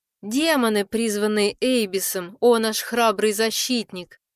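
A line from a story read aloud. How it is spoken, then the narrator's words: Loud purr. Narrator (Russian): Громко промурлыкала Сабло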